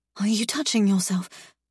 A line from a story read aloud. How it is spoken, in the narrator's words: I gasp